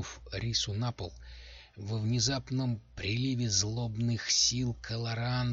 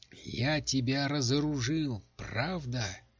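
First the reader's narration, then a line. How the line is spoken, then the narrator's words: Laughing. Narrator (Russian): Принц Ренга засмеялся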